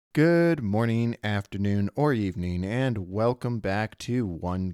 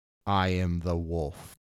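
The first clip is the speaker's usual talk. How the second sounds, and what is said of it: Flat monotone character voice. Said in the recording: “in a monotone voice”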